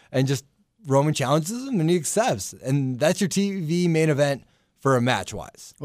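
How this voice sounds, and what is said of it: Usual voice. Nothing is said of it.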